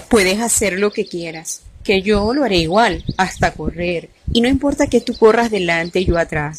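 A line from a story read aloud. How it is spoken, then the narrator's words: Plain. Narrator (Spanish): dijo el morrocoy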